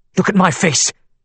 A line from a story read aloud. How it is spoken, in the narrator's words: Kayla snapped